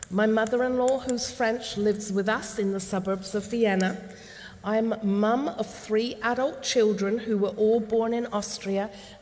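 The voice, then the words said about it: English accent. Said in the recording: “Where does this accent come from? Well, I'm English.”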